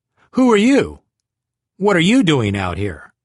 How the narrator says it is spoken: snapped back

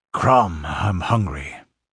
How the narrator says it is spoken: grunted the Cimmerian

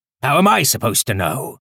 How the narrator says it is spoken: Foster grumbled

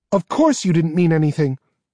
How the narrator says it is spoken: Kerrigan said hotly

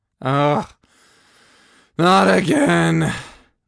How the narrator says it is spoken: I groaned

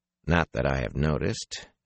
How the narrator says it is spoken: he said flatly

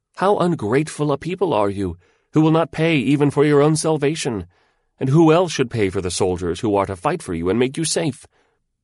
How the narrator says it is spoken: minions of the Lord of War cried out

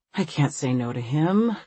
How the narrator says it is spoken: Christina sighs

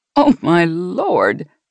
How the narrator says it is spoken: Jeannie said with a gasp, as her own shoulders shook with laughter

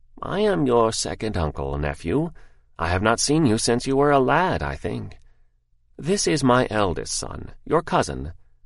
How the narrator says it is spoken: the elder said in his dried, high voice

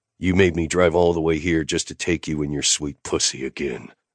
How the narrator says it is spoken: I growled

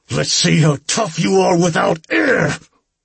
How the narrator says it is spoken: I screamed in his pointy ear

